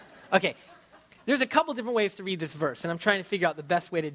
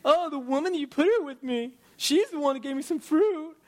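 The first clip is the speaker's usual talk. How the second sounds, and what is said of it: Whiny character voice. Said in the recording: “He sounds like a whiny little”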